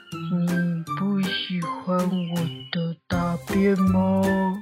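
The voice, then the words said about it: Slow drawn-out voice. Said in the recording (Chinese): “树上有一个慢慢的声音说”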